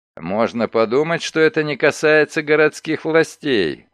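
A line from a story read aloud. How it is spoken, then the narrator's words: Sullen grumble. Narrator (Russian): угрюмо пробурчал Ларкин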